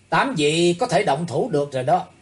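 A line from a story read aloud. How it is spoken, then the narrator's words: Calm, loud, resolute. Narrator (Vietnamese): Thủy Tướng Hạo thần tình trầm tĩnh, lớn tiếng dõng dạc nói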